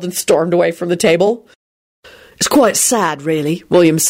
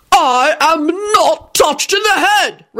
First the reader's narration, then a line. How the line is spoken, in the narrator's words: Richard screamed